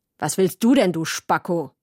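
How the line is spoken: Sharp cutting question. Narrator (German): hat er gefragt und seine Stimme hat so scharf geklungen wie eine Papierschere

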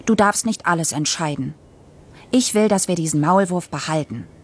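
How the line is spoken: Stern. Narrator (German): sagte ich streng

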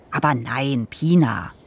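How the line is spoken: Plain. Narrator (German): sagte er

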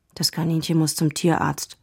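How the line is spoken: Quiet. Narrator (German): sagte Dennis leise

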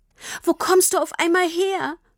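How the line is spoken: Asked while still sobbing. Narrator (German): fragte Tini immer noch schluchzend

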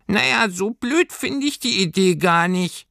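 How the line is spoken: Squeaky muffled voice. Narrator (German): sagte da plötzlich eine piepsige, gedämpfte Stimme

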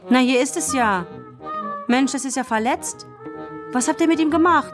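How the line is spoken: Sudden call. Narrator (German): Kevin rief plötzlich

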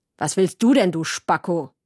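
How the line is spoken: Sharp question. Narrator (German): hat er gefragt und seine Stimme hat so scharf geklungen wie eine Papierschere

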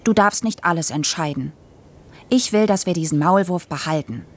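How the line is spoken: Stern. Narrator (German): sagte streng

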